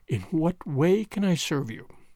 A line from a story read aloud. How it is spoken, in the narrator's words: he said, whilst his voice shook almost as much as hers